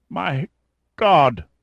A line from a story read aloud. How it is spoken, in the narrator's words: uttered in a halting croak